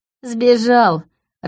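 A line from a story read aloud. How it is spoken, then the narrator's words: Bursting with laughter. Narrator (Russian): расхохоталась Света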